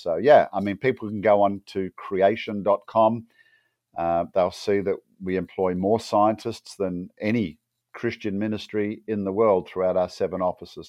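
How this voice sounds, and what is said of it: Australian accent. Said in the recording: “people can hear I have an Aussie accent, not an English one”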